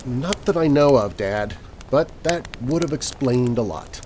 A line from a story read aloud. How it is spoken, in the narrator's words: My daughter just sighed and said